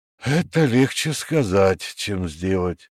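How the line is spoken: Sighing. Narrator (Russian): вздохнул премьер

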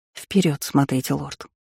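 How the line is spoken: Seductive whisper. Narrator (Russian): шепнули ее манящие губы

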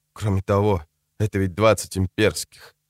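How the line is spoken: Whispered addition. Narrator (Russian): добавил он шепотом

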